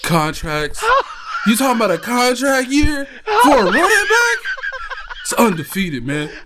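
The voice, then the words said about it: Impression of Therese. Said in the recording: “your Therese impression ... That was easily your best impression”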